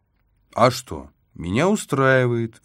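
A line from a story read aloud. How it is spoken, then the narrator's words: Cheerful, fed up. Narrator (Russian): весело произнес Флойд, тоже сытый по горло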